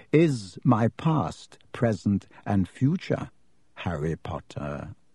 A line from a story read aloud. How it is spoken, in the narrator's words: said Riddle softly